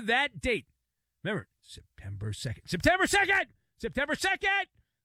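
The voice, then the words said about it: Yelling loudly. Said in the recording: “I'm yelling.”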